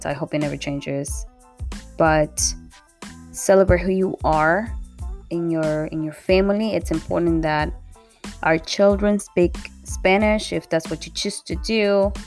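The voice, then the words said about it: Latino accent. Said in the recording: “I have an accent. I love my accent.”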